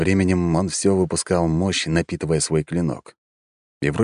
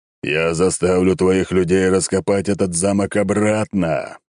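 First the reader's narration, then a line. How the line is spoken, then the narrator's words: Roared. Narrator (Russian): взревел рыцарь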